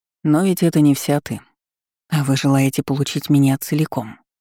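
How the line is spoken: Plain. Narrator (Russian): сказала я

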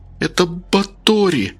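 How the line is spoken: Trembling voice. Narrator (Russian): дрожащим голосом сказала Рита

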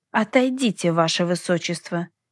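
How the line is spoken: Rude mutter. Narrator (Russian): невежливо буркнула я

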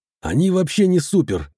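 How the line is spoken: Muttered. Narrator (Russian): пробормотал я

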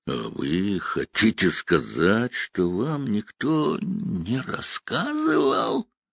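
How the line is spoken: Drawling. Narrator (Russian): Сид протянул

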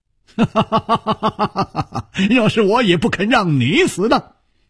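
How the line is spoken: Laughing. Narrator (Chinese): 他笑着说

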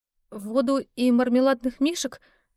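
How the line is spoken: Uncertain. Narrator (Russian): неуверенно произнесла

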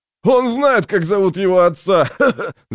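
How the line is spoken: Guffawing young man. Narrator (Russian): захохотал один из хохотунов, молодой мускулистый ублюдок

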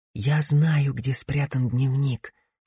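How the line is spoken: Whispered. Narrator (Russian): шепотом проговорила Финея

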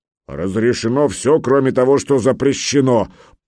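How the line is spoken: Booming grey-haired giant. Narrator (Russian): прогудел седой великан

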